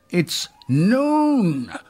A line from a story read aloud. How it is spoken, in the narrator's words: cried Tom again